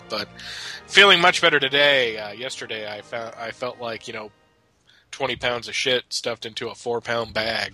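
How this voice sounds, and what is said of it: Scratchy, hoarse voice from a cold. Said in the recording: “my voice sounds kind of scratchy or whatever. I am battling a cold”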